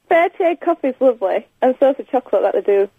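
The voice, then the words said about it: Strong Barnsley Yorkshire accent. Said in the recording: “You have to speak slowly. You've got a strong accent... I'm from Barnsley”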